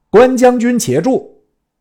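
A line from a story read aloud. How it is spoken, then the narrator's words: Loud call from hilltop. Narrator (Chinese): 山头一人，高叫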